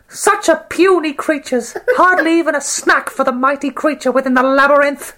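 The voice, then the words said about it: Sneering villain character voice. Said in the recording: “He sounds like an owl... That's a powerful man right there... I did that voice... he's probably a tiny, dweeby man who thinks he needs to prove himself”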